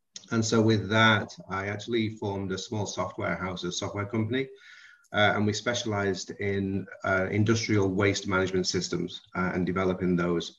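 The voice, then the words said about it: British English accent. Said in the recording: “So then I actually left the UK. This is where the accent is from. It's not a Texas accent”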